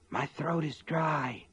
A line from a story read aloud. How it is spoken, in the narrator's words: Sean said in a husky whisper